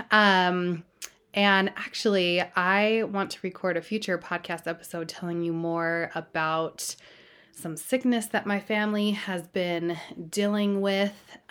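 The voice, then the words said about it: Hoarse voice, recovering from illness. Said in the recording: “You may be able to tell in my voice a little bit that I have been sick ... I had no voice, and it's been slowly coming back throughout the week”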